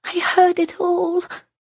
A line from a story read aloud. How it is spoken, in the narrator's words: Sabruki whispered